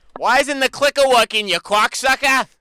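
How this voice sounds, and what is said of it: Put-on Boston accent. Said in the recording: “That was Boston. That sounded like Goodwill Hunting right there.”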